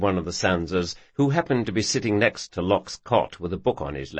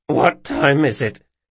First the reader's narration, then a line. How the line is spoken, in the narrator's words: he croaked